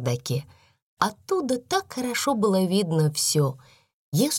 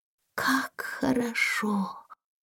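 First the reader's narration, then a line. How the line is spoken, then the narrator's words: Quiet. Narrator (Russian): тихо проговорила Сара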